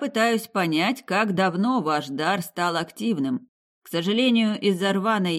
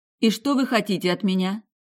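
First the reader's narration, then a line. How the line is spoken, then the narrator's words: Calm question. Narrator (Russian): спокойно спросила его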